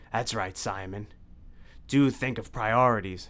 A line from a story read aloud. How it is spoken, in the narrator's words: snarled Dracula